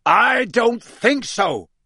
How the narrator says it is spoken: roared Moody

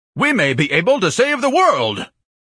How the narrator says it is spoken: Ignatius bellowed in an orator's voice

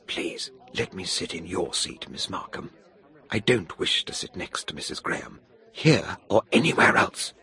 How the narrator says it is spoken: Jane Wilson whispered

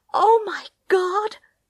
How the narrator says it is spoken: cried Tess

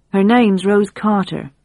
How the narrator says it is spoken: Pete said

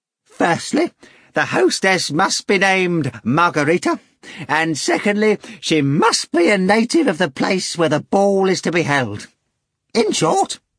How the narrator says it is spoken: Korovyov exclaimed

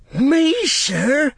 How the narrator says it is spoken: cried

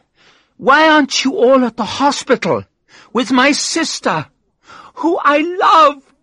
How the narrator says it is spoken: She screamed and started to cry

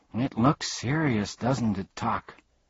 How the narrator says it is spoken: said Milo, very sadly

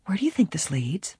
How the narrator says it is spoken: Helen whispered

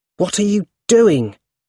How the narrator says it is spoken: He asked angrily

